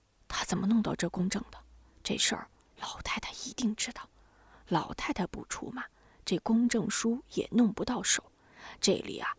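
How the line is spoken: Low voice. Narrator (Chinese): 低声说

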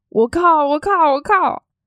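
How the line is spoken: Alarmed shouting. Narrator (Chinese): 嘴里喊着

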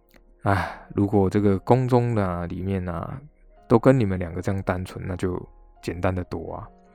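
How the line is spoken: Sighing wistful speech. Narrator (Chinese): 叹了口气 他就说

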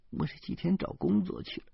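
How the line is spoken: Choked, sobbing. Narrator (Chinese): 他哽咽着说

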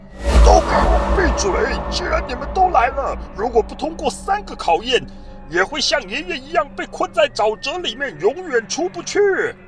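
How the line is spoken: Furious roaring shout. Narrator (Chinese): 史瑞克发出了怒吼的声音，大叫一声

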